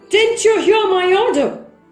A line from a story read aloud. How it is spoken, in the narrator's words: shouted Gessler